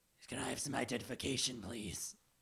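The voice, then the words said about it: Swarm creature character voice. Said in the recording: “do a swarm voice”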